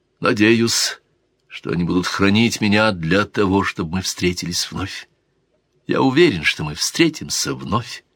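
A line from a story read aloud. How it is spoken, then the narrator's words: Sad, smiling. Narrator (Russian): сказал дон Гонсало и грустно улыбнулся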